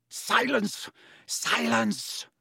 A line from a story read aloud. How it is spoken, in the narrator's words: Snape roared